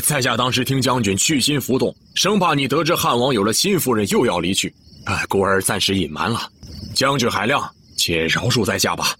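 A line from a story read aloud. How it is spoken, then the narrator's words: Hasty apologetic smile. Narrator (Chinese): 牛良笑了笑，忙作揖道歉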